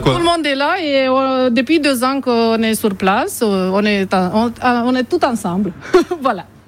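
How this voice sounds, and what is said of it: Eastern French regional accent. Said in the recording (French): “cette voix sympathique, cet accent de l'Est, hein, que tout le monde apprécie ici dans la région”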